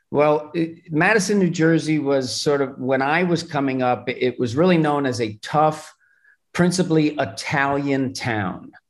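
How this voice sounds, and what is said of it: New Jersey accent. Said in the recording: “I hear the accent now. There it is. ... my accent's a little bit different, but there is definitely Jersey in it.”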